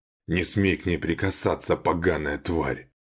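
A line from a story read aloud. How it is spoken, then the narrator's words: Through gritted teeth. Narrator (Russian): процедил Валиан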